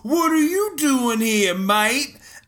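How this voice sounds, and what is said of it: Weak attempt at Australian accent. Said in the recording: “do you like how I slowly worked into the Australian accent? ... I like how you didn't actually get it”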